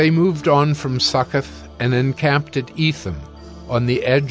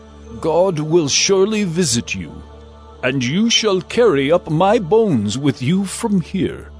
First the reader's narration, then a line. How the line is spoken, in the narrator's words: Joseph had made the sons of Israel solemnly swear, saying